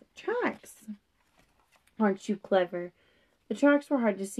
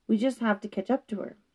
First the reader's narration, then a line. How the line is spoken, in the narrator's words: Sarah said firmly